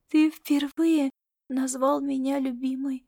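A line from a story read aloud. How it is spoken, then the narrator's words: Quiet speech. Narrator (Russian): тихо проговорила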